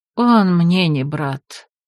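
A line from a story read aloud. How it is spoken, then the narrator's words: Tearful woman sighing. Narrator (Russian): вздохнула женщина, вытирая глаза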